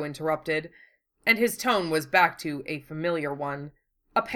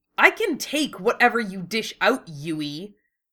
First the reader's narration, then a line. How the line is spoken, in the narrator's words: Wu Fei snarled, extremely grateful that his partner was giving him an easy way of accepting this, without being embarrassed